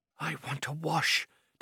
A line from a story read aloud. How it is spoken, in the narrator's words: Takvar said feebly